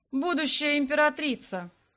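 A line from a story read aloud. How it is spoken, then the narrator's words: Mocking correction. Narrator (Russian): насмешливо поправил ее Дагорн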